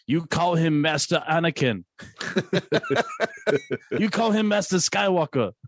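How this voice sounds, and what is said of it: Impression of a movie character's voice. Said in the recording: “I'm literally just trying to do a Short Round impression.”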